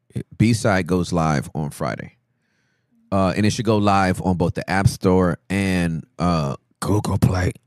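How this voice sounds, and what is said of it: Rough, scratchy throat voice. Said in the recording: “My voice just, it was weird. It's like I need a throat lozenge.”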